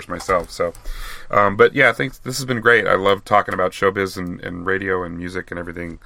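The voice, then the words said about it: Hoarse, strained voice. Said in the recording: “Yeah, me too. I'm getting kind of hoarse”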